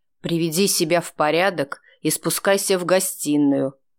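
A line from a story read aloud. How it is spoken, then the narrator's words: Through clenched teeth. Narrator (Russian): сквозь зубы бросил он Вите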